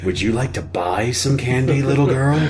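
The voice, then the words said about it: Caricatured creepy character voice. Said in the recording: “My impression of a Jewish pedophile.”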